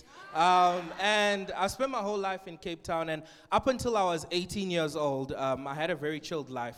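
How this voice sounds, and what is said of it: Cape Town South African accent. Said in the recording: “I'm a Capetonian, if you can tell by my accent”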